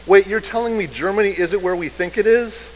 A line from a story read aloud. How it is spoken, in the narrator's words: the press secretary blurts out